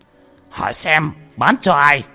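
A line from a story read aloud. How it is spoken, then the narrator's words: Furious trembling shout. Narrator (Vietnamese): Cục trưởng phân cục giận đến phát run lên, hét lớn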